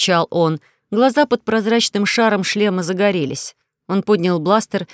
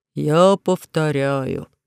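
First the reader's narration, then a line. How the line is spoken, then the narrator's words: Sad. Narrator (Russian): сказал он печально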